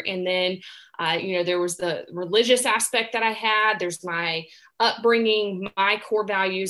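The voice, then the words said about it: Southern American accent. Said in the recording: “I grew up in the South, and if you hadn't picked up on my accent, that's, I'm Southern grown”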